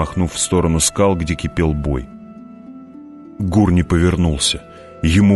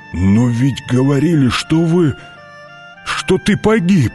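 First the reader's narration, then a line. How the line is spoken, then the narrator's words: Breathed out. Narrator (Russian): выдохнул Гур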